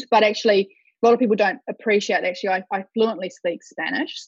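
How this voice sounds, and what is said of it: Subtle New Zealand accent. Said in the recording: “it's very, very evident by the very subtle Kiwi accent you can hear on the line that I was born in New Zealand”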